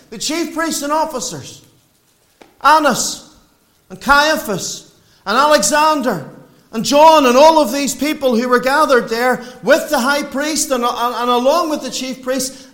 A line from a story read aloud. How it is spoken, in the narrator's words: they cried out saying